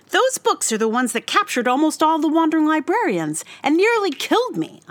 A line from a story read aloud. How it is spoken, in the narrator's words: I cried